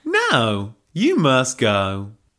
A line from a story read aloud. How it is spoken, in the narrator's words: drawled Helga